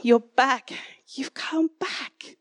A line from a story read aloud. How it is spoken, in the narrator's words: Breathless, gasped